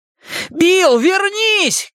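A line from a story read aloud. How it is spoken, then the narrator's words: Shouting. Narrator (Russian): кричал Ричи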